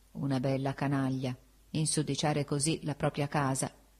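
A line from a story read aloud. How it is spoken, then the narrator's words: Sleepy murmur. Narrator (Italian): prima d'addormentarmi, mormorai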